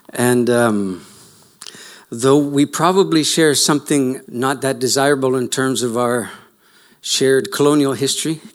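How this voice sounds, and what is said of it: Canadian accent. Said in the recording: “you can tell by my accent that I'm from slightly offshore. ... Canada and your country”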